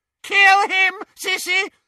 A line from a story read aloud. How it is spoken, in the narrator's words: shrieked Bellatrix